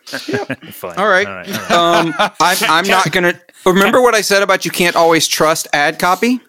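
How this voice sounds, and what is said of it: Southern US Mississippi accent. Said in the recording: “I'm from the South... I'm from Mississippi. You can hear it in my voice, even though I've spent years getting rid of it.”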